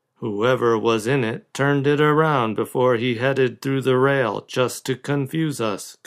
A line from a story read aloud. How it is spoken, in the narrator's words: Cone said blandly